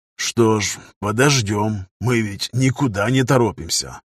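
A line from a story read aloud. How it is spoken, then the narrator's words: Low, deceptively patient mutter. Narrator (Russian): в полголоса проговорил капитан себе под нос, обманчиво терпеливым тоном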